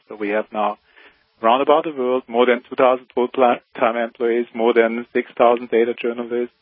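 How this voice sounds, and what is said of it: German-sounding Swiss accent. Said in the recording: “You have an accent that sounds like you're German or maybe Austrian ... You sound a little like Arnold Schwarzenegger to me ... Swiss”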